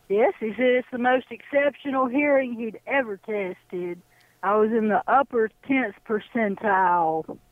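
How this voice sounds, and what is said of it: Alabama Southern US accent. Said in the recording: “You're in Alabama. All right. You have a wonderful accent.”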